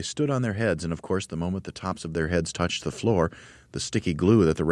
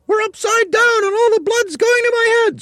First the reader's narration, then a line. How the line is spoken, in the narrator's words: screamed Mrs